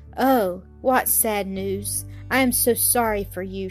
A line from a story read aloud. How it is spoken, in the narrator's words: murmured